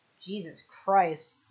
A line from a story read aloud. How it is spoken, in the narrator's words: he mutters